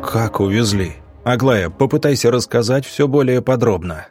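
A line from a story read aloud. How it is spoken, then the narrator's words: Plain. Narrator (Russian): сказал доктор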